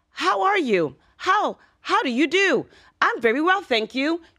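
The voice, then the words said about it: Stiff, robotic British English. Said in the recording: “the English that I learned from England ... you sound like a robot”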